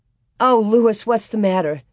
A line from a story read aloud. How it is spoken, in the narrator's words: she asked so anxiously that Laura was surprised